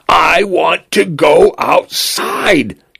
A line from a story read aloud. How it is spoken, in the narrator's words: he screamed over and over again until his voice broke, until he was red in the face